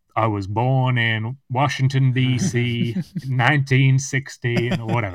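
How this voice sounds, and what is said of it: Put-on accent. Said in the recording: “I don't know why they've got that accent either”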